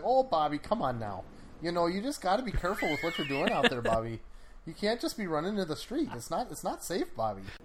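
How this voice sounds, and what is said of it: Thick Midwestern cartoon mom voice. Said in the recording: “Mom in Bobby's World had a thick ... that's those accents”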